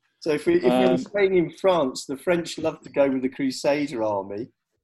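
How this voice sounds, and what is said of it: Usual voice. Nothing is said of it.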